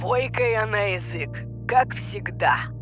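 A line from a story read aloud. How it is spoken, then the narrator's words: Laughing. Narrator (Russian): засмеялся он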